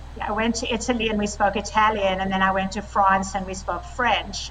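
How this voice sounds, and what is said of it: South African accent. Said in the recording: “I have a South African accent”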